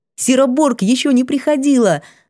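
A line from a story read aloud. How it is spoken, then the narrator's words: Cheerful report. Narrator (Russian): радостно доложила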